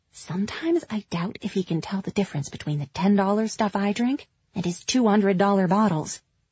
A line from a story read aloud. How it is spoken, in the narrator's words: In a stage whisper, Minnie said